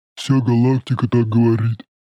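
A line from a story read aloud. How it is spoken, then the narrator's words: Droning, booming. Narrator (Russian): прогудел сосед Шороха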